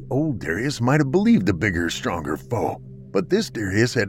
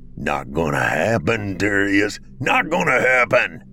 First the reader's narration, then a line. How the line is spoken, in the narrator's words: he growled